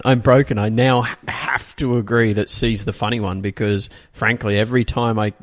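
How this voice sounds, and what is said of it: Australian accent. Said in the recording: “I love your Australian accents.”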